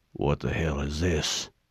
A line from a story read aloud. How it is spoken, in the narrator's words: Sergeant Johnson muttered